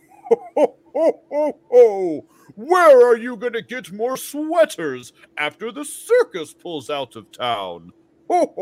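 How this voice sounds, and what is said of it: Jolly Santa Claus voice. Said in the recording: “in your best Santa Claus voice”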